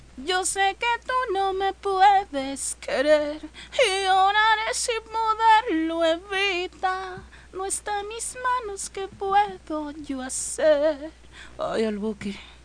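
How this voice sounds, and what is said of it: Sings in a woman's voice. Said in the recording (Spanish): “tiene mejor voz de mujer que yo”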